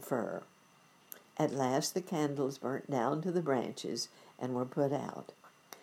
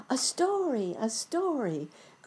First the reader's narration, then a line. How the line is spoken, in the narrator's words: cried the children